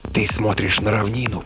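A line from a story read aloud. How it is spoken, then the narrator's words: Hiss. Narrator (Russian): прошипел Стоун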